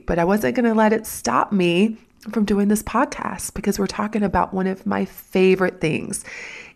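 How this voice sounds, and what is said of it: Husky, raspy sick voice. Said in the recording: “my new sexy voice? Or does it sound more like Marge Simpson? ... I have been so sick”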